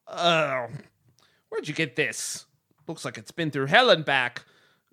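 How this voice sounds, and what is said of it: Shopkeeper character voice with accent. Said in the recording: “Why do I have this accent?”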